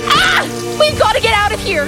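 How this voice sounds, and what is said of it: Yelling. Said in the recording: “we're yelling!”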